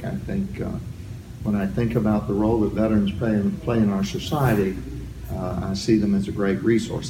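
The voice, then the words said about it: Southern American accent. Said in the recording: “You can tell from my accent I'm from the South.”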